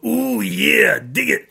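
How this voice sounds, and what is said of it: Macho Man Randy Savage impression. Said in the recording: “give me Macho Man ... everyone could do Macho Man”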